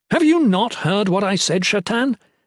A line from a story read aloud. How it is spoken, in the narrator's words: Aethan exclaimed